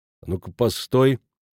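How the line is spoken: Calm halting. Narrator (Russian): спокойно остановил его Иеремеш

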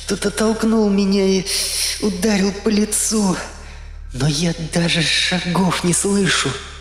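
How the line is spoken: Trembling, rising panic. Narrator (Russian): дрожащим голосом сказала она, выдавая начинающуюся панику

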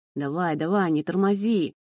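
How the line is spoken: Growling. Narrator (Russian): рычал мой провожатый

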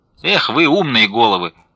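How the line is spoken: Shouting. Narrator (Russian): крикнула она

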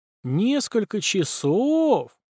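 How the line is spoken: Drawling. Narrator (Russian): протянул Белобородов

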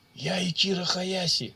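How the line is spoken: Hoarse rasp. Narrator (Russian): прохрипел полукровка

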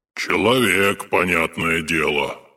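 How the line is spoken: Grumbling. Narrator (Russian): проворчал Акинфий Сосновский

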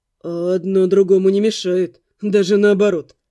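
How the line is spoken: Scoffing. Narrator (Russian): хмыкнул

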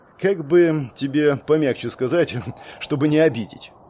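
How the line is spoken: Sad sigh, serious. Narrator (Russian): грустно вздохнув, не стал шутить Линс

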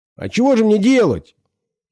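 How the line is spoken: Whiny yell while struggling. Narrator (Russian): Пытаясь вырваться, заорал он плаксиво

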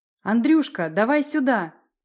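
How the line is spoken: Shouted. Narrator (Russian): крикнула Лариса

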